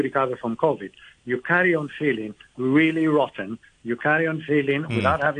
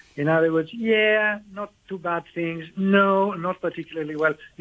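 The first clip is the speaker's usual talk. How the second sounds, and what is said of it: Whining tone of voice. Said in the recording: “I'm putting a whining little accent right. to my voice here”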